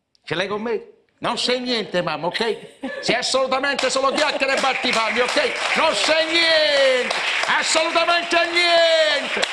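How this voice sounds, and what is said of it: Imitation of an Italian film dubber's voice. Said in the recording (Italian): “imparai a fare l'imitazione dei doppiatori di questi americani ... Rambo, De Niro ... Ferruccio Amendola”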